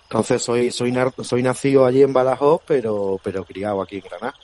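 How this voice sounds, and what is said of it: Granada Andalusian Spanish accent. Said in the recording (Spanish): “¿El acento es granaíno, granaíno? ... Sí, sí, sí, sí, el acento granadino”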